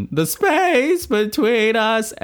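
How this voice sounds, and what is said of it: Sung impression with cracking voice. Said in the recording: “The one where his voice cracks? ... my Dave Matthews Band impression. ... It's horrifying, by the way.”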